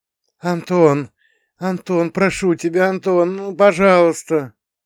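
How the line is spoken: Muffled voice through sleep. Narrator (Russian): Голос глухо пробивался сквозь вязкую пелену сна

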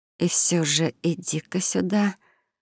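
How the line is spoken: Determined young woman muttering. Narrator (Russian): мгновенно решившись на вторую попытку, пробормотала девушка

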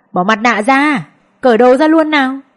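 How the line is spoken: Old men shouting loudly. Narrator (Vietnamese): Mấy lão khác lớn tiếng hô

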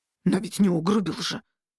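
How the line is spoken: Slightly guilty snap. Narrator (Russian): немного виновато огрызнулся правитель

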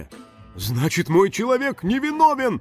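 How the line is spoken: Happy exclamation. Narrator (Russian): счастливо воскликнул Нюхфин

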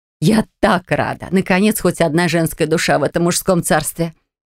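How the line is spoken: Ringing happy laughter. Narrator (Russian): Амиланира звонко и счастливо засмеялась

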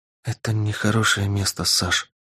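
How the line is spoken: Whisper. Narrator (Russian): прошептала она

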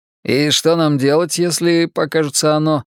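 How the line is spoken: Plain question. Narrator (Russian): спросил Ричи

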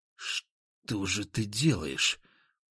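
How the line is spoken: Whispered. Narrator (Russian): прошептал я

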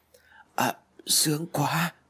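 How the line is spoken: Intense uncontrolled moan. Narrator (Vietnamese): Trinh không kiềm nổi cảm xúc đang bùng phát, cô rên lên đầy mạnh bạo

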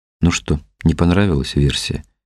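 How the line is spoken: Low-voiced question. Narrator (Russian): спросил Тихон вполголоса

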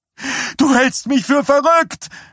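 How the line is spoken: Shouting at him. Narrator (German): schrie sie ihn an

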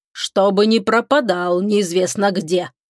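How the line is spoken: Stern father. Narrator (Russian): строго произнес папа

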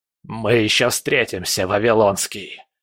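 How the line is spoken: Menacing parting hiss. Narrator (Russian): прошипел он на прощание

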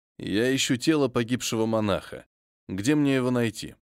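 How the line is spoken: Calm question. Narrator (Russian): Совершенно спокойным тоном поинтересовался я

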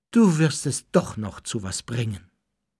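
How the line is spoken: Sighed. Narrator (German): seufzte sie

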